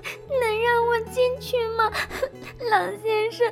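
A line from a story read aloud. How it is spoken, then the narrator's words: Crying out. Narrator (Chinese): 他哭喊着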